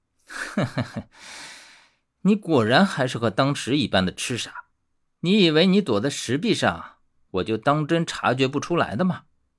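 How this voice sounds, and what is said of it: Mocking, sneering voice with cold laugh. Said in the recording (Chinese): “冷笑数声。用带着嘲讽的声音说道”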